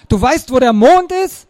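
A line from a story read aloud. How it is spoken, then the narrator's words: Excited call. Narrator (German): Aufgeregt rief Axel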